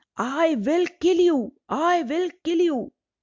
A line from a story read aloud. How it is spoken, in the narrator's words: He became so angry that he shouted